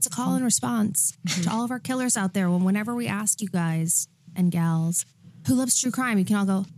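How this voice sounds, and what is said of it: Delilah-style radio host voice. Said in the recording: “that's my Delilah radio voice, but murderous”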